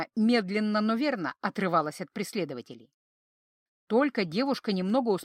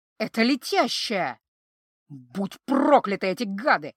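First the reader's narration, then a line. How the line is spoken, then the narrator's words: Emotional growl. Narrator (Russian): От полноты чувств рыкнул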